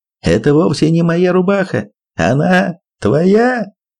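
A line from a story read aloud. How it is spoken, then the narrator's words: Shouted through laughter. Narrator (Russian): заходясь от смеха, но, наконец, ухитрился выкрикнуть в промежутках между раскатами хохота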